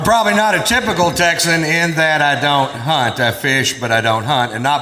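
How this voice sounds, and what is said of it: Usual voice. Nothing is said of it.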